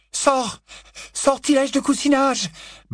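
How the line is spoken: Stammer. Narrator (French): balbutia Hermione

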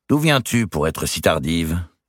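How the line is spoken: Cold question. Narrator (French): demanda Dame Eliabelle froidement

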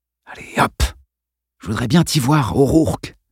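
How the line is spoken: Murmuring. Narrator (French): murmura-t-il

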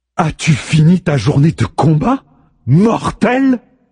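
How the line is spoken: Sarcastic shout, stressed word. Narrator (French): hurle-t-elle, insistant sur ce dernier mot d'une voix sarcastique

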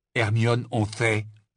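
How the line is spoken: Stern interruption. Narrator (French): l'interrompit Ron d'un ton sévère

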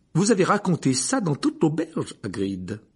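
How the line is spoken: Exasperated tone. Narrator (French): dit le professeur McGonagall d'un ton exaspéré

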